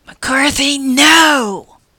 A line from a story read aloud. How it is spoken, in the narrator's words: whispered as loudly as I dared